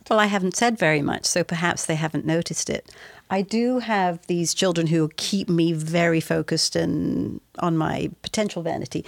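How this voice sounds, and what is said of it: English accent. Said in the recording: “your English accent ... you sound so incredibly English”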